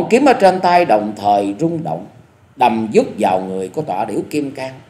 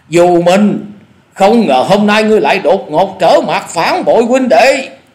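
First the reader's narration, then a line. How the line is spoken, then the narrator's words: Furious loud shout. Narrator (Vietnamese): giả điểu thần ma không dằn được lửa giận, nạt to tiếng nói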